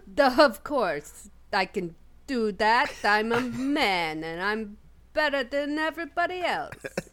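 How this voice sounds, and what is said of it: Impression of Mr. Grayson. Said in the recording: “we get a Rex doing a Mr. Grayson impression”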